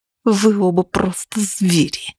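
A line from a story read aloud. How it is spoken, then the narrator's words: Hissing. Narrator (Russian): прошипела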